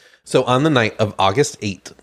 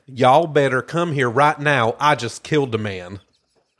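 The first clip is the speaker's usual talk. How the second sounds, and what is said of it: Put-on Southern country accent. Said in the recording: “I partially want to say this in a southern accent ... I could do a real good country accent ... that was a gay country accent”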